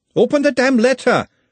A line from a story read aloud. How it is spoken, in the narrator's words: shouted Glenda